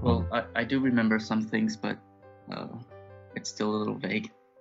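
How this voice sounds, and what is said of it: American accent, no French trace. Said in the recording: “I, I, can't hear any, any French in it, so um, you, you, quite have the, the US accent”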